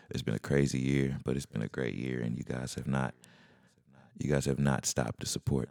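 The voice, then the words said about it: Whispering, quiet hushed voice. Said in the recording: “If it sounds like I'm whispering right now”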